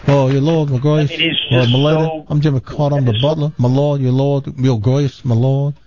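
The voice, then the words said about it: Imitates another person's voice. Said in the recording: “Here's my impression of him.”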